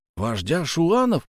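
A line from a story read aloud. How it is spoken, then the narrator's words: Exclaimed. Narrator (Russian): воскликнул Давыдов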